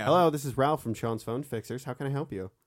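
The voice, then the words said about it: Customer service phone voice. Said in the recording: “when I used to take like technical phone calls, I had a wildly different voice.”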